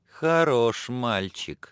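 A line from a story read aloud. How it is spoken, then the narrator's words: Laughing. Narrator (Russian): засмеялась она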